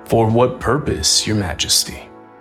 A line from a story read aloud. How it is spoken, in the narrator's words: Viswamitra asked